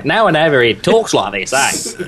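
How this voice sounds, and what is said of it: Exaggerated fake Australian accent. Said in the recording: “my Australian accent's so terrible, mate”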